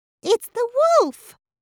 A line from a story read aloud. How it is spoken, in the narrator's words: cried Abby